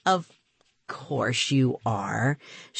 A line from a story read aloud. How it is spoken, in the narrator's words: she murmured